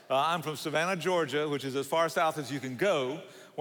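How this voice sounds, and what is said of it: Southern US accent. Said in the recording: “This is not an impediment. This is a Southern accent”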